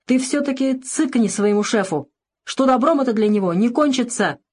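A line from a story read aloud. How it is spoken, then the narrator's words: Sudden shout. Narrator (Russian): вдруг закричал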